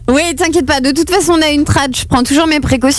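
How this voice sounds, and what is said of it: English accent speaking French. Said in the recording (French): “ton accent anglais ... ils trouvent ça charmant, hein, mon accent”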